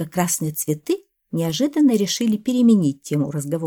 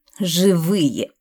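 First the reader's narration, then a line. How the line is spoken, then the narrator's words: Snorting, several voices. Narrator (Russian): хмыкнули ярко-красные маки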